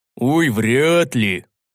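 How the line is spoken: Scoffing grunt, big man. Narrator (Russian): хмыкнул здоровяк

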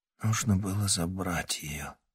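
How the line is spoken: Barely audible. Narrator (Russian): едва слышно произнес парень

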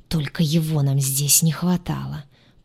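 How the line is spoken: Angry hiss. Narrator (Russian): прошипел рассерженный

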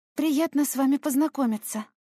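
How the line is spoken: Timid sigh. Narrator (Russian): вздохнула я, робко улыбнувшись

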